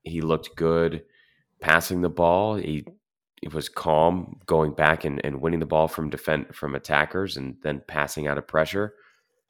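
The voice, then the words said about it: Tired-sounding voice. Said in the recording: “so my voice is a bit tired”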